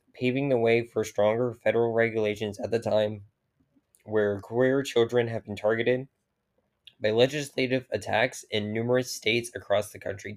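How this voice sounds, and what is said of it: Raspy, strained voice. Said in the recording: “my throat is so fucking raspy right now ... The yelling yesterday just got to me.”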